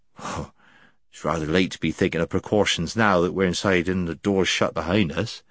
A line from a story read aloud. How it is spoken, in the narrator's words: he muttered